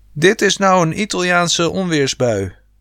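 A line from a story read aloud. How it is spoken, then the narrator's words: Father yelling. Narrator (Dutch): schreeuwde pa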